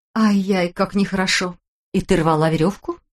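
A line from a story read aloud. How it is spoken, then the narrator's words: Affectionate asking voice. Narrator (Russian): спросила она ласковым голосом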